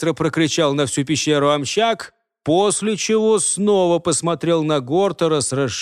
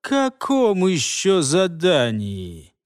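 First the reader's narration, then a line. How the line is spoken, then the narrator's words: Wary drawl, falling intonation. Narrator (Russian): Настороженно протянул Илос, опустив интонацию на последнем слове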